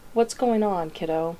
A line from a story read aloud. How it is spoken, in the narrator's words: Dean asks, keeping his tone lighter than he feels